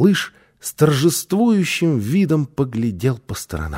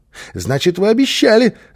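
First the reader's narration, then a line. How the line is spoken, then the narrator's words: Joyful child. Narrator (Russian): радостно подхватил малыш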